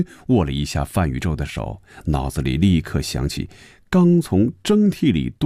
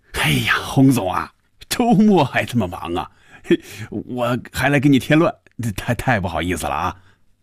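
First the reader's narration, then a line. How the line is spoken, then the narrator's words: Laughing. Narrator (Chinese): 范宇宙……笑着说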